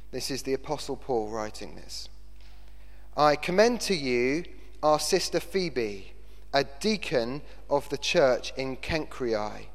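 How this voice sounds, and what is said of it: Put-on British BBC accent. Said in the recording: “in my best BBC voice”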